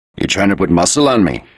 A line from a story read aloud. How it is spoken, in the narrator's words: he said harshly, his voice deliberately all east side